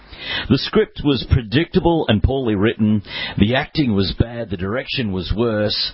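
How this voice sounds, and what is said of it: Australian accent. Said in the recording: “accent ... Rotten Tomatoes, only Australian style”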